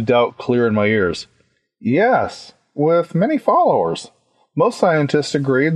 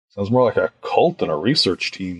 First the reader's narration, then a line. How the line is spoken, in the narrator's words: I muttered